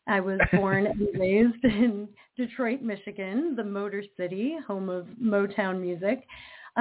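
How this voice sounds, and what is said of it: American accent. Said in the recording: “as you and your listeners can hear from my accent, I am American.”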